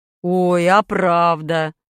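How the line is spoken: Father laughing. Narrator (Russian): засмеялся отец

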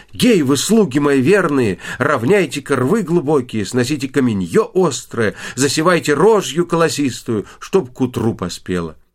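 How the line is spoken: Loud shout. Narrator (Russian): Василиса Премудрая крикнула громким голосом

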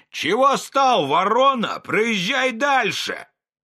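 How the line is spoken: Policeman shouting in a nasty voice. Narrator (Russian): городовой около освещенного подъезда клуба кричал отвратительным голосом на Пантелеймона

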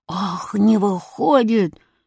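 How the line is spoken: Growled. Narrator (Russian): зарычал гонщик

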